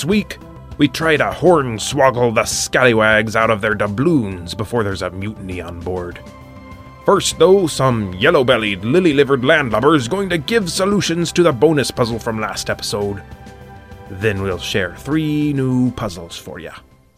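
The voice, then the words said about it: Put-on pirate captain accent. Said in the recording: “Oh, thanks, Captain. And don't worry, that's the last of that accent you'll get on this episode.”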